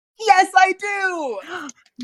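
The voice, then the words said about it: Loud excited exclamation. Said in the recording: “I'm saying that so loudly.”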